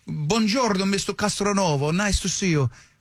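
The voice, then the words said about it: Imitated foreign accent. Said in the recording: “You got a good accent”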